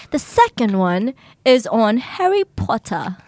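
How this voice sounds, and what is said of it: Put-on British accent. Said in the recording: “should I do it in British accent? Yeah, try it. Do it.”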